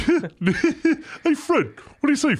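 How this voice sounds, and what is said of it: Cartoon character voice, Barney Rubble. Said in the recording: “do the voices of the characters... my Barney Rubble”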